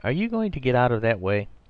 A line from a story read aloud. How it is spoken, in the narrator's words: cried Arthur Inglewood in a kind of agony